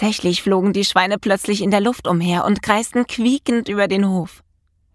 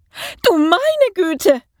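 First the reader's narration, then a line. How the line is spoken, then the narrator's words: Screaming. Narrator (German): schrie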